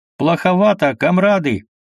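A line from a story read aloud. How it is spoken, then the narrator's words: Boastful shouting. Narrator (Russian): Роскошный Меншиков хвастливо кричал пушкарям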